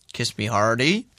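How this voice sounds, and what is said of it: Norfolk accent. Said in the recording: “In what voice? ... Norfolk. ... Yeah, really good.”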